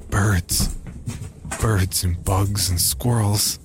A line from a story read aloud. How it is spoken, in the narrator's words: Jerry croaked